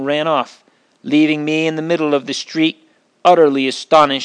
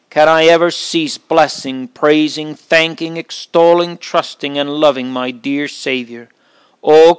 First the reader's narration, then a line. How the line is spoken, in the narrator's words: cried I